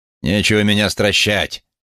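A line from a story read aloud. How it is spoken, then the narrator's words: Snapping. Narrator (Russian): огрызнулся Хэнк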